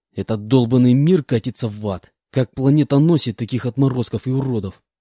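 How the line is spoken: Angry hiss. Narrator (Russian): Злобно прошипел я

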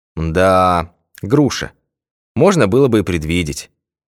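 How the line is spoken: Sigh. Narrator (Russian): вздохнул Башмаков

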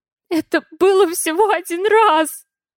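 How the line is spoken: Stammering, sobbing plea. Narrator (Russian): Заикающимся от рыданий голосом уговариваю я

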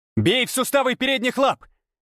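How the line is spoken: Silent mental shout. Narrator (Russian): крикнул я мысленно

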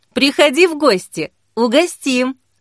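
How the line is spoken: Laughing. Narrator (Russian): засмеялась она

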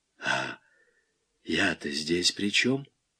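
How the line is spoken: Hoarse rasp. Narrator (Russian): просипел Малянов

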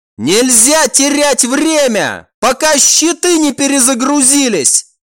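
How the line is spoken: Shouted. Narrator (Russian): крикнул командор

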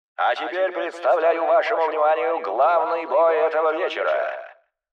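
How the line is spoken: Announcer roaring. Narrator (Russian): проревел комментатор

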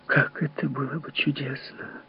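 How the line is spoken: Whispered. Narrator (Russian): шепнула она

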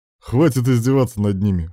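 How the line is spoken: Chuckling. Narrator (Russian): хохотнул Руслан

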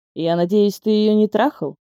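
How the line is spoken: Displeased question. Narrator (Russian): спросил Алексей, причем сделал это очень недовольным тоном

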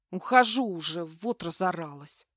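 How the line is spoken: Muttering under breath. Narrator (Russian): проворчала я себе под нос

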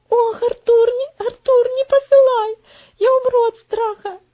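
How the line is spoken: Frightened whimpering. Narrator (Russian): захныкал Вальтер

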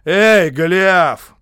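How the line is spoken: Shout. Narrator (Russian): крикнул он

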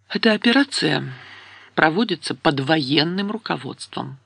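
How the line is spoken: Calm reminder. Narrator (Russian): спокойно напомнила

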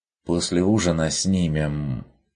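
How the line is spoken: Plain. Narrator (Russian): сказал Бруно

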